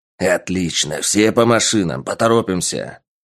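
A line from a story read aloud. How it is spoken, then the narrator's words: Barked command. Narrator (Russian): гаркнул командир отряда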